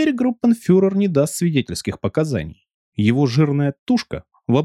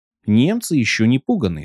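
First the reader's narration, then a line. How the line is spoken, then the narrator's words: Plain. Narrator (Russian): сказал он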